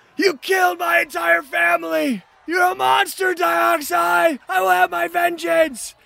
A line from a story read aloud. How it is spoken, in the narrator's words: they're screaming